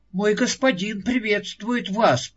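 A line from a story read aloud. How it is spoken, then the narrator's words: Whimper. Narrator (Russian): проскулил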